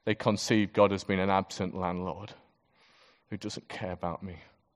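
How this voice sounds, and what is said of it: Speaker's own regional accent. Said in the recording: “my accent, I didn't say guacamole, whack-a-mole”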